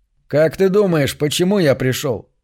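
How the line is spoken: Smirking grunt. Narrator (Russian): Кифер хмыкнул

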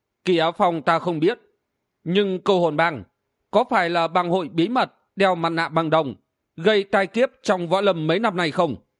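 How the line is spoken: Suddenly stern voice. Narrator (Vietnamese): Hắc Cốt Ma Nương bỗng nhiên nghiêm giọng nói

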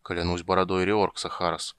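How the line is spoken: Muttering. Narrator (Russian): пробормотал он

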